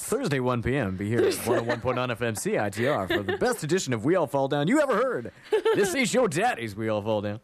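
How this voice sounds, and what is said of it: Exaggerated radio announcer voice. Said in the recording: “Hello, Mr. Radio Voice.”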